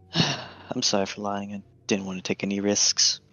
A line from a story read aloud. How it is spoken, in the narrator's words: Gina has a little sigh and says